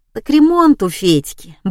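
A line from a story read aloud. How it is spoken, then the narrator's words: Cheerful brisk answer. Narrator (Russian): бодро ответил Куприн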